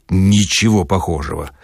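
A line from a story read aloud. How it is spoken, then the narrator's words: Booming thunderous reply. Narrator (Russian): громовым голосом ответил Филипп Филиппович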